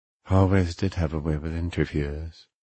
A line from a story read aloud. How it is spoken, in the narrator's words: Dragon muttered